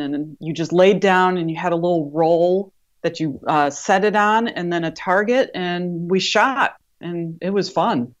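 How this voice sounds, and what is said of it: Midwestern Wisconsin-like accent. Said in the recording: “I can hear it in your voice. ... you've got a little bit of a full-on Wisconsin”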